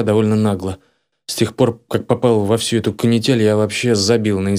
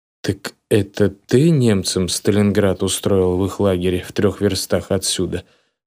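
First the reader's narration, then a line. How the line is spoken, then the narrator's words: Plain. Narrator (Russian): спросил подпол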